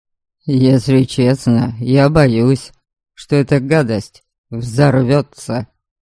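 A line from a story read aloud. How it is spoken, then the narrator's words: Grumbling mutter. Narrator (Russian): пробурчал Дориан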